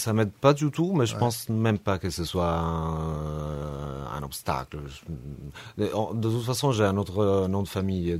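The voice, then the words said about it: Slight Italian accent in French. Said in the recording (French): “l'accent, hein, l'accent italien ... quand ils parlent français, il y a un petit accent. On sent tout de suite que”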